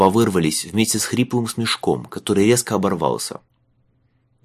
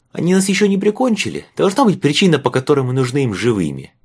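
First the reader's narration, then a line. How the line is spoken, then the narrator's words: Shrill cry. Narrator (Russian): пронзительно вскрикнул Майлз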